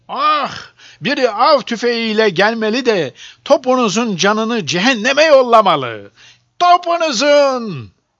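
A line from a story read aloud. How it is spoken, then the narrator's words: Group crying out. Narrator (Turkish): diye haykırıyorlardı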